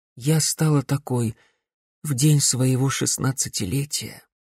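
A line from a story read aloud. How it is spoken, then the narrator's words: Sad voice. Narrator (Russian): печально проговорила Глория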